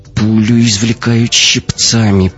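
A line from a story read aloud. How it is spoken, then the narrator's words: Through gritted teeth. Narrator (Russian): проговорила Катя сквозь зубы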